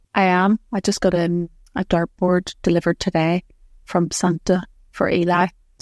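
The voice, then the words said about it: Whispering. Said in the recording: “That's why I'm whispering.”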